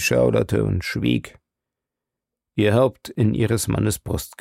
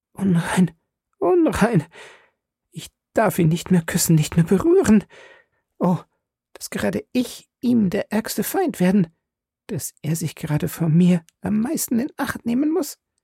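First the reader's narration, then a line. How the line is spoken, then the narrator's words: Anguished sobbing whisper. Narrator (German): Sie erschrak ... mit einem leichten Seufzer ... flüsterte unter qualerfülltem Schluchzen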